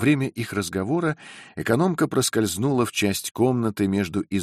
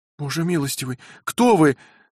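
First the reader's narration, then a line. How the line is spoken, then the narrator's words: Exclamation. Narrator (Russian): воскликнула Розамонда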